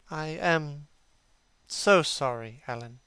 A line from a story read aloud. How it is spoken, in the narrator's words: he murmured